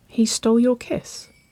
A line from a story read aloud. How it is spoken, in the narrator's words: Waverley murmured